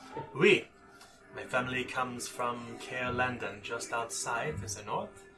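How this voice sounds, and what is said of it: Put-on French-like accent. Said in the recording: “she has a very Western accent, like a Frenchish accent”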